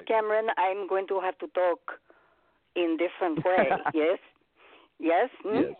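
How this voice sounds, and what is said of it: Put-on Russian accent. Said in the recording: “Ruski. ... dialect. ... To do a Russian accent.”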